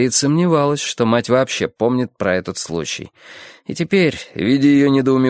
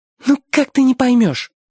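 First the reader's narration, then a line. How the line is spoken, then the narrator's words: Desperate exclamation. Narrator (Russian): с отчаянием воскликнула Гарриет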